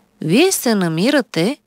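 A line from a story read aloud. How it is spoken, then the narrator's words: Calm doctor speaking. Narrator (Bulgarian): спокойно заговори лекар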